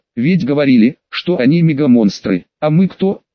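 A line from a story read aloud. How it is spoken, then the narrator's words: Laughing question. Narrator (Russian): спросил, смеясь, рыжий очаг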